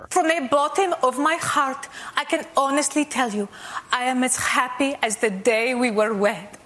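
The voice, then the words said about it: Impression of Melania Trump. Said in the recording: “her impersonation of former First Lady Melania Trump ... She got lots of laughs impersonating Melania Trump on Stephen Colbert.”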